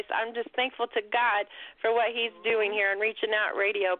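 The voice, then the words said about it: Excited, energetic voice. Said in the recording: “I'm excited, and you can hear it ... You can hear that in my voice.”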